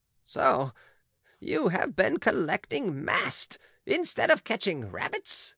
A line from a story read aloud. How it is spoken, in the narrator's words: cried Aunt Angelique angrily